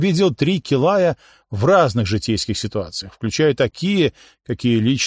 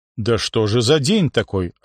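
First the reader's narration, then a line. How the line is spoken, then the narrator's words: Confused. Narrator (Russian): растерянно сказал я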